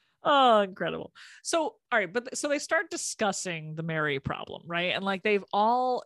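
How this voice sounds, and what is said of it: Usual voice. Nothing is said of it.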